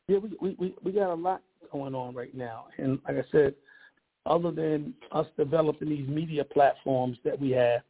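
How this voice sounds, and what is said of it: Hoarse, raspy voice. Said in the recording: “My voice is a little hoarse. You probably could tell ... A little laryngitis”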